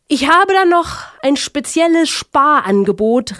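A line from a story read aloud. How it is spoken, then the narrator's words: Calling through megaphone. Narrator (German): rief er durch ein eilends herbeigeholtes Megafon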